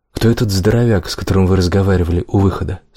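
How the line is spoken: Plain. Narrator (Russian): спросил он

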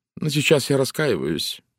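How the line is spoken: Gloomy. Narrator (Russian): мрачно произнесла Валери

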